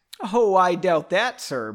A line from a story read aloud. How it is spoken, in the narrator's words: Benbow laughed